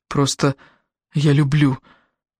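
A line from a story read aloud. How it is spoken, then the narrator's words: Hoarse speech. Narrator (Russian): Хрипло поговорил он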